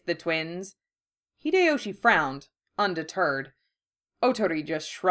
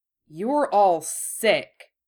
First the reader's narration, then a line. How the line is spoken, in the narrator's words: said Hideyoshi through his teeth